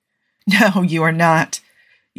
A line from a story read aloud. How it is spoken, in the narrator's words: Yusuf replies with a gentle laugh